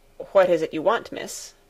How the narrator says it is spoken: Sebastian looked surprised and said somewhat curtly

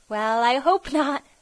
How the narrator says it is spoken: laughed Elnora

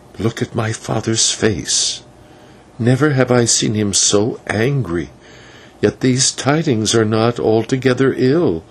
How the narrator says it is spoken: Maya, hanging back for a moment, whispered

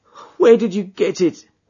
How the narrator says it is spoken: he groaned

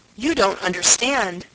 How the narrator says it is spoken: gasped Elnora

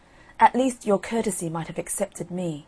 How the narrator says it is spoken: the new queen flushed up and cried out

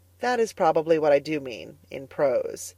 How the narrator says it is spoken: answered Anne gravely

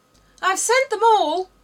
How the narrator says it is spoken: the King cried in a tone of delight on seeing Alice

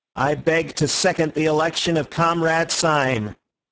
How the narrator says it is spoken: repeating in a high American monotone

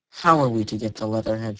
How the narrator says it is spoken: she said

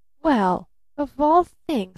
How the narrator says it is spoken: stammered Barton

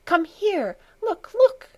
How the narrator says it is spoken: she cried, beside herself with excitement

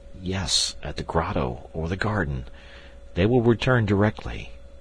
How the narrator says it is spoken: I murmured

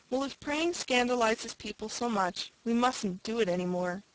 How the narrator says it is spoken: sighed Una

